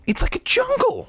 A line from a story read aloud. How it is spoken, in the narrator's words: Margaret exclaimed